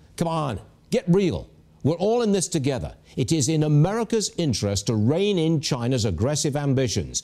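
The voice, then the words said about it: British accent. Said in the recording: “you hear his British accent.”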